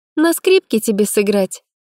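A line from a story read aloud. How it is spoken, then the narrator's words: Snide question. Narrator (Russian): спросила ехидно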